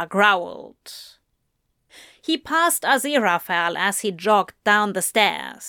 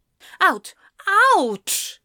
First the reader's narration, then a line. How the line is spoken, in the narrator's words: Zira roared, red-faced